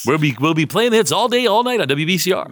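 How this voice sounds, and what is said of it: DJ radio announcer voice. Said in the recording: “radio voice ... Your DJ voice ... you have a radio voice”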